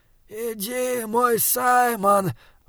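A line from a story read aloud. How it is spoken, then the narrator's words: Breathed, clear through flames. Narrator (Russian): выдохнул он, и голос его отчетливо доносился сквозь пламя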